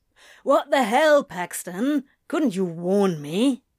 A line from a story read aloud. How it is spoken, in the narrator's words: he grumbled